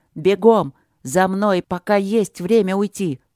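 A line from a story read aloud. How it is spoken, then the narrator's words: Barked command. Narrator (Russian): Трот … рявкнул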